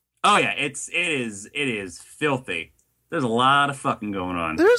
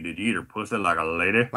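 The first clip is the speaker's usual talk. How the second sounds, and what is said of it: Put-on Southern US accent. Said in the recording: “I know I'm saying like a southern accent”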